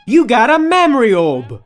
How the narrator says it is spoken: Velvet exclaimed, a little too excited

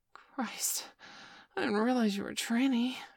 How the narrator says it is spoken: I gasped

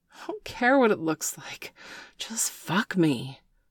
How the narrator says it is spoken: Bailey gasped

